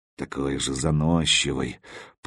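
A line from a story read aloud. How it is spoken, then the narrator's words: Mumbling. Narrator (Russian): пробормотал он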